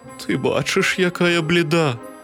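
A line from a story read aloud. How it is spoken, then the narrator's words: Weak-voiced reply. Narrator (Ukrainian): кволим голосом відказала хмара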